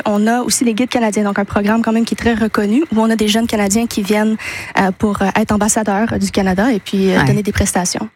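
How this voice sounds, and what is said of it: A charming accent. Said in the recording (French): “votre petit accent, qui est absolument magnifique”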